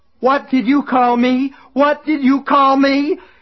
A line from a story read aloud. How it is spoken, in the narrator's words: He screamed it over and over again